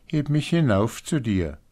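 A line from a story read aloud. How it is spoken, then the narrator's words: Calling out. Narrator (German): rief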